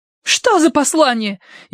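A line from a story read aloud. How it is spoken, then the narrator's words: Hysterical cry. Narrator (Russian): истерически вскрикнула Элевис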